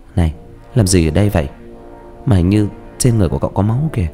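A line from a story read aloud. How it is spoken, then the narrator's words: Unafraid question. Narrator (Vietnamese): nó không sợ hãi, hỏi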